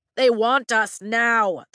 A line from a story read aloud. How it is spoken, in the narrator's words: the man shouts from the antechamber